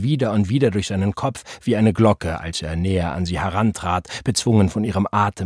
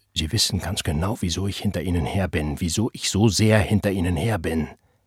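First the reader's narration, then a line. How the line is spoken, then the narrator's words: Agitated whisper. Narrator (German): flüsterte aufgebracht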